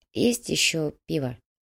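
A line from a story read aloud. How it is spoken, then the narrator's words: Quiet question. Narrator (Russian): тихо спросила переплетчица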